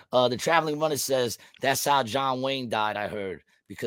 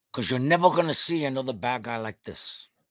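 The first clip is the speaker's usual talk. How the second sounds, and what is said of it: Impression of a movie gangster character. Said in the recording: “I used to do a much better impression.”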